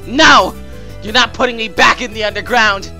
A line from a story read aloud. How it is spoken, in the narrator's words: Flowey shouted